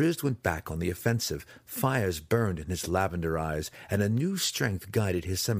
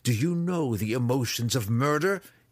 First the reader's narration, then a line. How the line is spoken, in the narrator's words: he spat